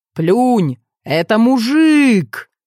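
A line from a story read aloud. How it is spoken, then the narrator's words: Young man yelling. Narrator (Russian): молодого человека спортивного телосложения, который вопил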